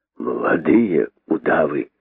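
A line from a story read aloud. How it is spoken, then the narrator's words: Hopeless sarcastic exhale. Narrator (Russian): выдохнул он с безнадежным сарказмом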